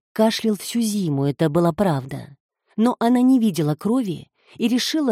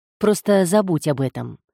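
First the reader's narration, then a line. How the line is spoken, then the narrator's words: Sharp. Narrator (Russian): резко сказал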